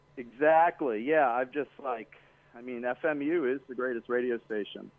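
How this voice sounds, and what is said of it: Slow drawling accent. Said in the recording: “I like your accent. ... The slow drawl”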